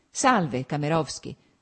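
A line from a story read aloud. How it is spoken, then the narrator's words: Cool added greeting. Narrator (Italian): soggiunse, stringendo freddamente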